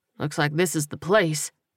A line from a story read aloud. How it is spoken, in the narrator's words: Coleman muttered